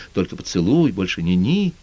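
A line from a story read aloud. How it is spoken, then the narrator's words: Whispering. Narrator (Russian): Тека все время шептала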